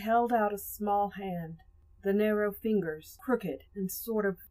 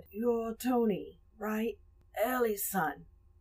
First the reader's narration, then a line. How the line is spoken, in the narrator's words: in a croaky voice, he said